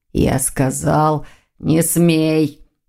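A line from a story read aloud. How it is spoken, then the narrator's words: Demonic growl. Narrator (Russian): прорычал демон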